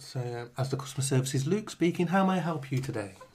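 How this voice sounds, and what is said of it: Polite middle-class telephone voice. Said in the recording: “Telephone voice. ... Middle class now ... What is your telephone voice? ... That's a nice voice, that is.”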